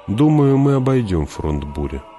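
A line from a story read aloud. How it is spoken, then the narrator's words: Calm. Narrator (Russian): спокойно сказал Кинес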